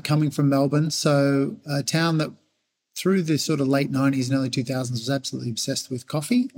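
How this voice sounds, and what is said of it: Australian accent. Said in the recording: “as you can hear from my accent ... An Aussie.”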